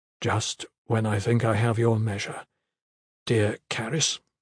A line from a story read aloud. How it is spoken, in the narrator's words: said, his voice low but steady in spite of the pain